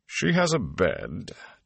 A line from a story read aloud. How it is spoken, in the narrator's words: Tom said dryly